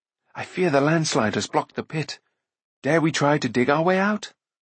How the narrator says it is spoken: Taran said in an anxious voice

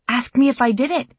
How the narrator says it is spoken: he exclaimed, proudly

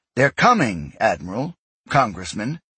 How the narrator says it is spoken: she said firmly

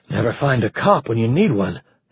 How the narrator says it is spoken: Harry muttered

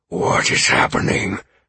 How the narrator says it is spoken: Amaranth asked me urgently

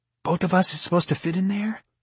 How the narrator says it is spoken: Pan asked in a whisper

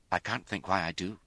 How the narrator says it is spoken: she said in a brittle tone

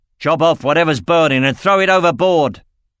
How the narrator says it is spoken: roared Uthar in reply

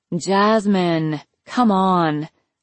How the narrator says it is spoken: moaned

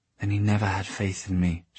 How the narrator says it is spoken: she whispered

